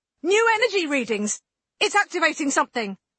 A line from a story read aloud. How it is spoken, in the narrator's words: one of the science crew shouted out